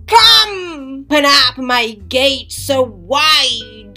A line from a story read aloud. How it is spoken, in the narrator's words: she shouted